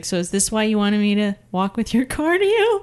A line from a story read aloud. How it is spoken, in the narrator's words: <laughs> and she just laughed and she's like,